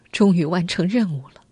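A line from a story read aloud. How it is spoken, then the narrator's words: Long sigh of relief. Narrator (Chinese): 王丽……长叹一口气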